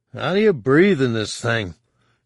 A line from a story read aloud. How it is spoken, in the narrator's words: Han grumbled